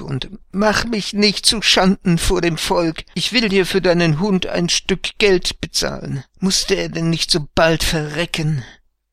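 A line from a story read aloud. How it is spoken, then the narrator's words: Pleading. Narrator (German): flehte Hagebuck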